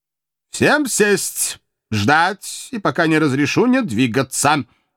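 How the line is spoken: Stern barking old man. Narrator (Russian): строго рявкнул старичок

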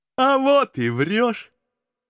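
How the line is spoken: Lad's happy laughter. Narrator (Russian): счастливо захохотал хлопец

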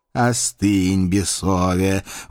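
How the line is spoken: Reproachful booming. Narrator (Russian): укоризненно прогудел Павлушечка

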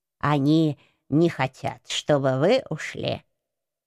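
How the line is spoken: Calm, old man. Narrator (Russian): спокойно прокомментировал дедок

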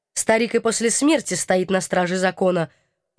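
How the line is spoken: Respectful snort. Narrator (Russian): уважительно хмыкнул военный

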